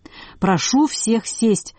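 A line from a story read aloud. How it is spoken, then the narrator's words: Ringing shout. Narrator (Russian): звонко вскрикнул Бурляев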